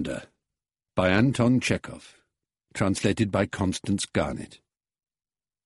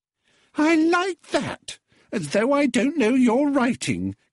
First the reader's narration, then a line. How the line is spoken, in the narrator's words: giggled with an affected shriek